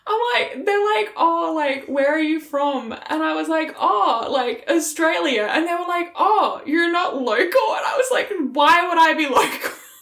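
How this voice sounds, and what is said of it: Strong Australian accent. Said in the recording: “We sounded full fucking Aussie ... this fucking Australian accent”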